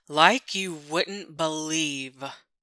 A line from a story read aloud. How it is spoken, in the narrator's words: groans